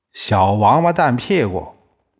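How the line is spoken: Bellowing. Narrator (Chinese): 铜铁匠见到李光头时，就会吼上一声

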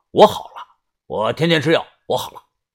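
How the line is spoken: Loud, prompt. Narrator (Chinese): 二胖子立即大声说

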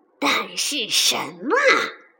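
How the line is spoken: Low growl. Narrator (Chinese): 狐狸低吼道

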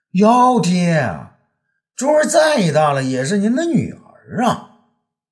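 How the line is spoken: Loud shrill voice. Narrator (Chinese): 珠儿高声尖语

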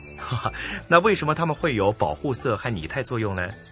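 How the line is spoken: Father, laughing question. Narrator (Chinese): 爸爸笑着问

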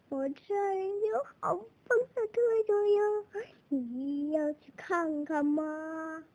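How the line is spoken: Monster, sly grin. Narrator (Chinese): 妖怪一脸坏笑说

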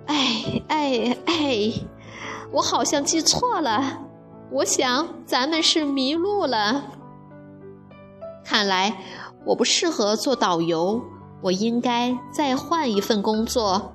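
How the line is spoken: Sighing old man. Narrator (Chinese): 水壶爷爷叹了口气说

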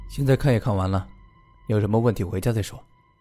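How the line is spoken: Sighing. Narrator (Chinese): 白毅先叹了一口气，说道

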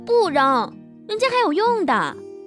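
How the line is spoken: Calling out. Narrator (Chinese): 默默叫道

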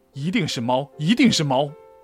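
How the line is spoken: Angry shout. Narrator (Chinese): 我很愤怒，叫道

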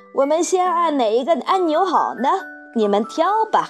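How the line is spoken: Calling out. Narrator (Chinese): 汪克先生叫道

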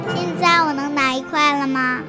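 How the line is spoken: Plain question. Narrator (Chinese): 艾摩接着问

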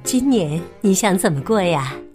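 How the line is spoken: Plain. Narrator (Chinese): 富兰克林说

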